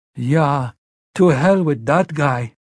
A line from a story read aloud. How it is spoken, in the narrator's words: Mats cried, and although he was still weeping, he was now smiling too